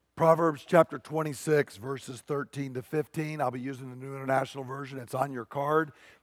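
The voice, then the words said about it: Hoarse, failing voice. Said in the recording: “sorry about my voice. It just abandoned me last night.”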